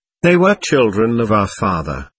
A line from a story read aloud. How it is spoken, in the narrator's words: I answered sadly